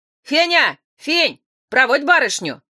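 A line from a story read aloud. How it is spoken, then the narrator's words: Doorman shouting. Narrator (Russian): крикнул привратник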